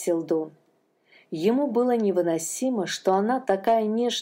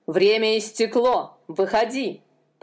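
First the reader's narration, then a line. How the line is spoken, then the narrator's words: Jailer's growl. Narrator (Russian): прорычал тюремщик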